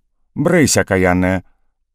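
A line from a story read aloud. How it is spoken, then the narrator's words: Woman sharply shouting. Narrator (Russian): Женщина прикрикнула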